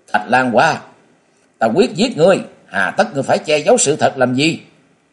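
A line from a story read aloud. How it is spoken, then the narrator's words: Furious loud shout. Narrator (Vietnamese): Song Châu Thanh đang tức giận, chàng không thể kềm chế được máu nóng nên thét lớn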